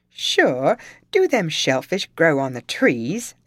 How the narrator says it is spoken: exclaimed Tim

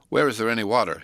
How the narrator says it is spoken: he said

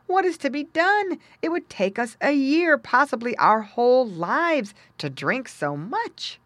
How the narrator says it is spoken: he exclaimed

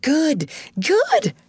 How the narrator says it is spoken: cried Joe

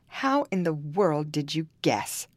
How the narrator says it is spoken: cried Costier in a fury

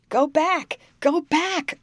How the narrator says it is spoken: I cried out, louder than I ought to have spoken

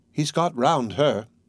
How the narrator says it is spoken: Nastasya murmured, smiling slyly

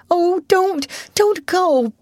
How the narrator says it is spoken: begged Ruth nervously

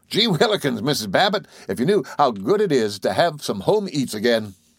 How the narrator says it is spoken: face broadened with joy, and he blurted

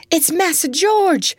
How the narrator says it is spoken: cried Aunt Chloe, in great excitement

